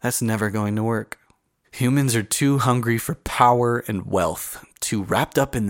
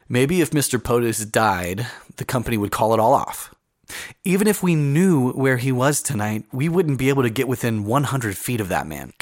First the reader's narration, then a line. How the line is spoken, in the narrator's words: Callie said